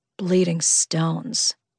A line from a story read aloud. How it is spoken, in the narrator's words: Ryder muttered under his breath